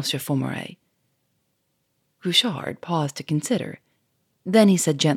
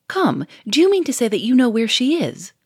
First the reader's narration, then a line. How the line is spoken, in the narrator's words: cried Monsieur Fourmery